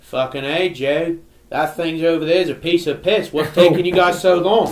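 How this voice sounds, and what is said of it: Imitated Australian accent. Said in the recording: “this guy was Australian ... his accent did not go away at all ... I love Aussie accents”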